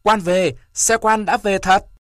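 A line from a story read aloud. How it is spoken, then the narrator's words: Clamoring crowd. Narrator (Vietnamese): cả phòng nhao nhao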